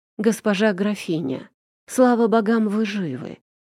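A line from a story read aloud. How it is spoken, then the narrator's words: Breathless relieved butler. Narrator (Russian): выдохнул дворецкий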